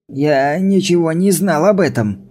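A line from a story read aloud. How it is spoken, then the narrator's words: Protesting shout. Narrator (Russian): протестующе закричал Брайан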